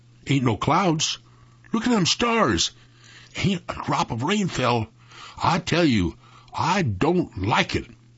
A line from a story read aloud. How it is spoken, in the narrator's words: Jeff whispered hoarsely